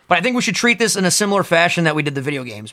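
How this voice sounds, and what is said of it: Strong Italian accent. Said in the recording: “my Italian accent is super out right now”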